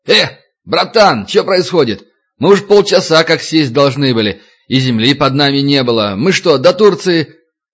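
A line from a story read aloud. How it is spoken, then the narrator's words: Passenger yelling. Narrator (Russian): один из пассажиров заорал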